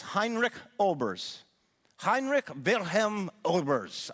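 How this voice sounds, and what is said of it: Put-on German accent. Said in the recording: “I'm trying to say it in my best German accent I can.”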